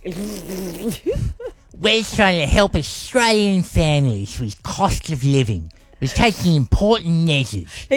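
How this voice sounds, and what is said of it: Exaggerated impression of Albo. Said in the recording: “You just wanted to get an Albo impersonation in there, didn't you? ... He doesn't sound like that. ... You've exaggerated slightly.”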